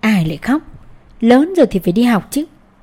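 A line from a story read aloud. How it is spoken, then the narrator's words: Faint laugh. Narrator (Vietnamese): Ông giáo Toàn cười nhạt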